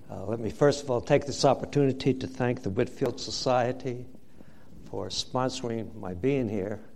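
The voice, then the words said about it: New Jersey accent. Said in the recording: “my Jersey accent”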